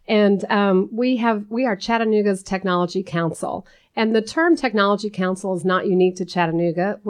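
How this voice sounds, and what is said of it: Voice with a cold. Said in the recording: “I have a little bit of a cold.”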